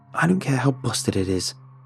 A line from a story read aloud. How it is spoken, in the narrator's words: Ryan hissed through his teeth